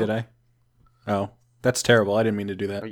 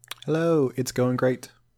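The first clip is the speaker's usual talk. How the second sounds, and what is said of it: Slightly British-sounding hello. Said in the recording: “You sound a little British there for a second. You were like, hello?”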